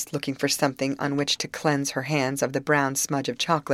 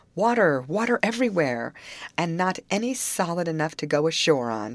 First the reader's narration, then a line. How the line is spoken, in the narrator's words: she concluded with a laugh